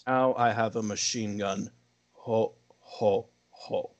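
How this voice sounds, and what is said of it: Menacing put-on accent. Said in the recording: “I'm going to try to do the accent again ... the most menacing ho, ho, ho line delivery ever”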